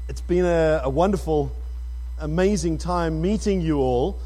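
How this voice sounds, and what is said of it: South African accent. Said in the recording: “my accent, which is a little foggy this morning ... living in Johannesburg, South Africa”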